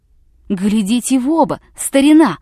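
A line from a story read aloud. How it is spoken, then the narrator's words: Shout with chattering teeth. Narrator (Russian): крикнул, стуча зубами, корреспондент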